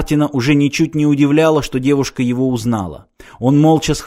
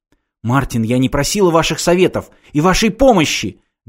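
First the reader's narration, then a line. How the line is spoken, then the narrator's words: Angry exclamation. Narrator (Russian): гневно воскликнула Ирина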